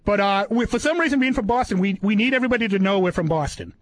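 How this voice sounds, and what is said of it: Boston accent. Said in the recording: “people know right away I'm from Boston by the accent.”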